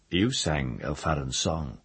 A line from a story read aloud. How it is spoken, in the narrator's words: Sparrowhawk said